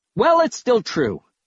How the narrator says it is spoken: I snapped

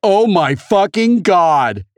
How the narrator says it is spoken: H cried

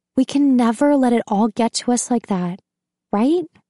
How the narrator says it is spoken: Eleanor says, her voice climbing to that familiar whine

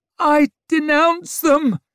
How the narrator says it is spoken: she wailed desperately

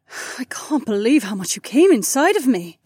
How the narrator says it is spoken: the corporal sighed

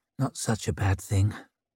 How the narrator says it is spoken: murmured Leo

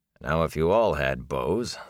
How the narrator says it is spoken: the warder said dryly

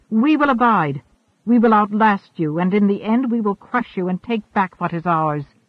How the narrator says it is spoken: shouted

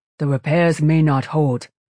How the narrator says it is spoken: said Hua Chung in a warning tone

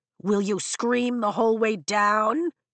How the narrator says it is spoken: Jack mocks, still shouting, but his voice is closer

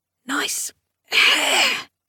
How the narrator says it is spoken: She whispered archly

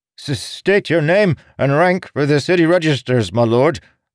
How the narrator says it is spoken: the lead guard sputtered

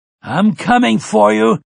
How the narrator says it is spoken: Finley bellowed after them

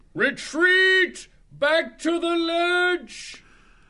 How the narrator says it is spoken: he yelled

